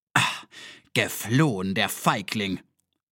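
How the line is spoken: Hissing. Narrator (German): zischte er

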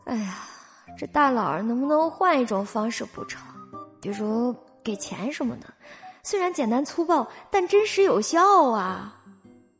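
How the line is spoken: Sighing. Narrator (Chinese): 肖九九不由得叹气

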